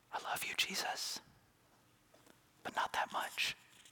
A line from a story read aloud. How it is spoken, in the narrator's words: Mary might whisper